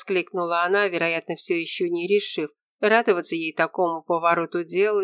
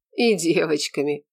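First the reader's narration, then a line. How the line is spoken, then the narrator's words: Smirking grunt. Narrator (Russian): хмыкнул Прокофий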